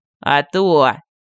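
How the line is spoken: Laughing loudly. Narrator (Russian): Медальон расхохотался

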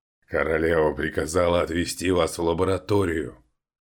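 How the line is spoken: Growled. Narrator (Russian): прорычал один из них

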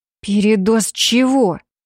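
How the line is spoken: Hissed. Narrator (Russian): Прошипела я

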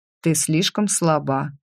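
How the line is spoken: Flat, even voice. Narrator (Russian): ровным голосом сообщил инкуб

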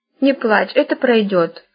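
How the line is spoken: Gentle. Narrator (Russian): ласково сказала она

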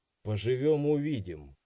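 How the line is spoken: Wry snort. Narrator (Russian): хмыкнул я

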